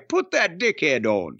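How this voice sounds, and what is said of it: Put-on Bradford English accent. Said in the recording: “I did the accent because they're from Bradford, England. That's a Bradford accent, right?”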